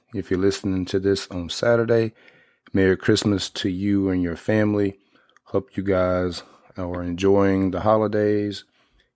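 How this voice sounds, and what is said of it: Slightly congested voice. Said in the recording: “I'm almost over this sinus infection ... My voice is still a little weird sounding. It sounds weird to me anyway”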